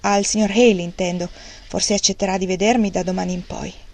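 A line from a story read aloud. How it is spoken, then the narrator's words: Cold tone. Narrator (Italian): disse con tono freddo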